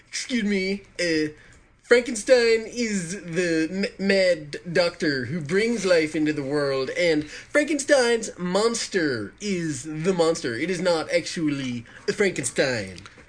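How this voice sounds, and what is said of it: Pedantic nerdy character voice. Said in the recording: “I'm going to do it in sort of pedantic nerd voice.”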